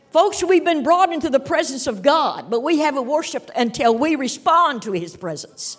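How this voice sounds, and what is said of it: Kentucky accent. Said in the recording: “you can tell by the accent, I'm from the state of Kentucky.”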